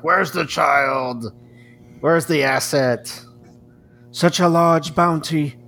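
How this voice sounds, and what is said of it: Poor put-on German accent. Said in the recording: “my impersonation of the old German dude from the first season ... That was the worst German accent I've ever heard.”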